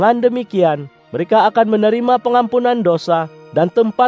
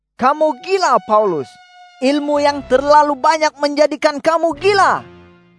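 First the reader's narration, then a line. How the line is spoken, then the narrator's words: Loud voice. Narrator (Indonesian): Festus berkata dengan suara nyaring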